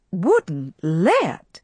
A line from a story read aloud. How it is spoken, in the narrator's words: she cried indignantly